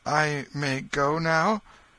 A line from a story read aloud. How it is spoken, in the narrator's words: He hesitated, a little confused, then turned timidly toward the king, saying